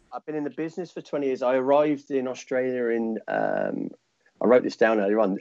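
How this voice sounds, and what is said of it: Thick British accent. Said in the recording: “I can still hear that thick British accent coming through the microphone.”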